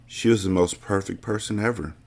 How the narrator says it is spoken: whispered

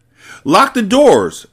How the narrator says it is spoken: Emma cried

